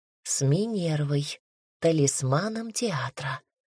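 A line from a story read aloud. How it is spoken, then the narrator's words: Whispered reply. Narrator (Russian): ответил я также шепотом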